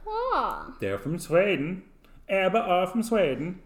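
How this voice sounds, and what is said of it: Deliberately bad put-on Swedish accent. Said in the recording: “do you like my Swedish accent? ... it's a really terrible accent”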